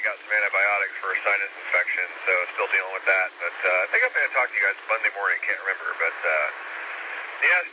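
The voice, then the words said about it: Congested, slightly hoarse voice. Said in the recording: “really, really plugged up in the head and stuffy and losing my voice a little bit”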